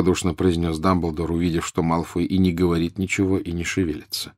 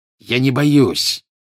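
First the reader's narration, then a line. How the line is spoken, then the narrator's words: Growling. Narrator (Russian): прорычал Малфой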